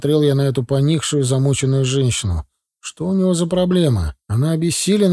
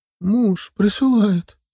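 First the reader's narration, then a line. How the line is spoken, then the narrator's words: Tearful. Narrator (Russian): сквозь слезы ответила она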